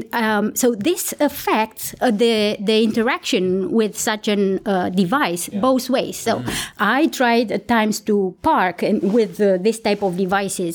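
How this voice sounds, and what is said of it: Speaks with a foreign accent. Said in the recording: “I have an accent. I didn't manage to get rid”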